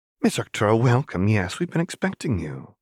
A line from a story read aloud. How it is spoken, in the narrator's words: said brightly